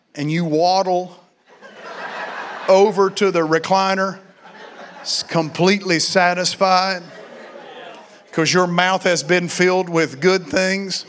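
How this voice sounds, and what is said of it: Southern country way of talking. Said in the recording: “I'm talking country. Because that's what I was raised in”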